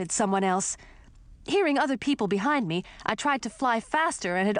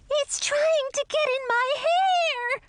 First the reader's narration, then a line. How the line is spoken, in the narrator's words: shrieked a girl